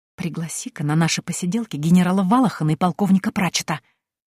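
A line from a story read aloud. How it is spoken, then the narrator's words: Whisper. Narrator (Russian): шепнула я старому Гудвину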